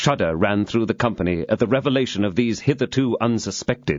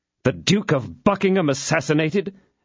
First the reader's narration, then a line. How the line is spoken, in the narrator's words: exclaimed all with one accord